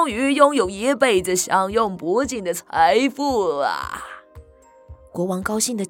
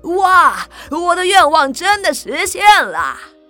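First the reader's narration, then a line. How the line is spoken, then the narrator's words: Joyful loud shout. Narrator (Chinese): 国王高兴地大叫起来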